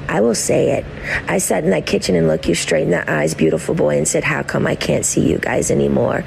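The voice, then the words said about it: Heavy vocal fry. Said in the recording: “the vocal fry is strong with this one”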